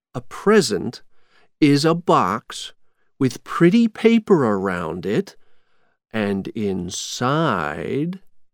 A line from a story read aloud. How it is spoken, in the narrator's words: Jack said slowly